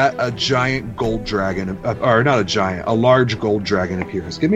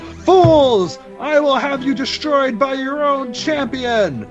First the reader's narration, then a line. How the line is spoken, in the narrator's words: You hear the Rodent King yell